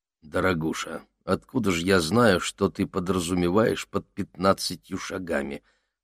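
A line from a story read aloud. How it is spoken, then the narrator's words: Grumbled. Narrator (Russian): буркнул Макс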